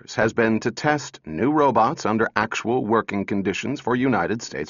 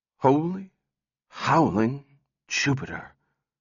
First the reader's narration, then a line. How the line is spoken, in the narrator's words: He whispered